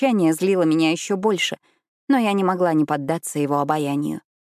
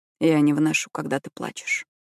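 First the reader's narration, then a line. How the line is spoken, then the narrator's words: Quiet. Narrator (Russian): тихо сказал он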